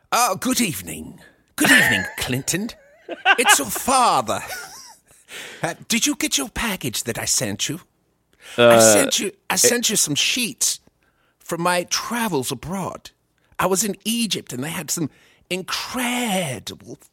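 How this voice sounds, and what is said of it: Poorly done put-on accent. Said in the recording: “I'm bad at accents, but let's try it.”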